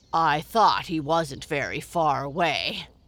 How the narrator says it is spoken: grunted Grandfather Frog with a twinkle in his great googly eyes

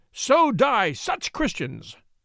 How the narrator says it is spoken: shouted at the top of his voice

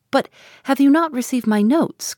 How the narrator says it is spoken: cried Marianne, in the wildest anxiety

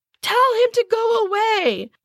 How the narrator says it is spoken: they all screamed

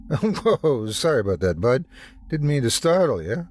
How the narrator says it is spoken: laughed an elderly man

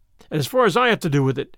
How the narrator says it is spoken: said Harvey Deacon

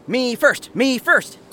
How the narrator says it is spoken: cried Michael

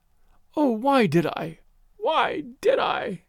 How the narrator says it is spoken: she was moaning

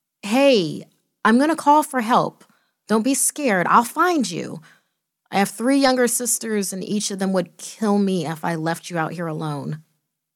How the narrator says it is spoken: I cried out

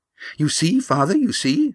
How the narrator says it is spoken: she said eagerly

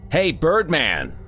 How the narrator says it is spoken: shouted

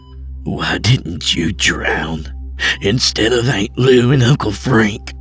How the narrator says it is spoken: growled

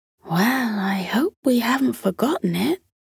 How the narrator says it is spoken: muttered Martin's mother

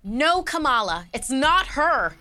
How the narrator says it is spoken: Elena shouted

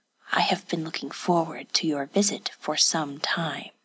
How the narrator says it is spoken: said, his voice little more than an imperceptible mutter

